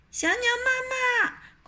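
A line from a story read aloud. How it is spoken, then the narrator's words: Two children calling together. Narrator (Chinese): 东东和洋洋一起喊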